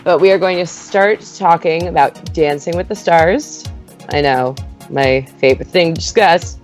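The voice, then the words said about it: Strained, worn-out voice. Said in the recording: “My voice is like super spent from this on-off crazy weather in SoCal.”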